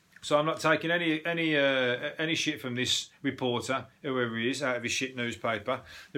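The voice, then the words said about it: Brummie Birmingham English accent. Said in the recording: “they're dissing my accent ... the Brummie twang being the least attractive. Now, please, that's my accent ... The Brummie accent is up there with the best”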